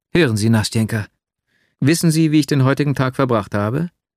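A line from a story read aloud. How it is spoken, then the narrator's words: Overflowing emotional exclamation. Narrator (German): Schließlich floss mein Herz über und ich rief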